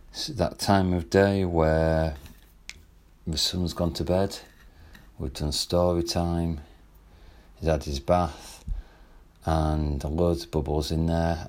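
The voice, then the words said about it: Slightly quieter, soft speaking voice. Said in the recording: “I'm talking in a slightly quieter voice right now”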